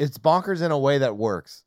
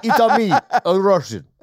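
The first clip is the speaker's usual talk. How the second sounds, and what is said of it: Exaggerated mock Italian-style accent. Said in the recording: “Russian accents are all like borderline offensive. ... All over the map. ... It's like your Italian accent, ... It's about as good.”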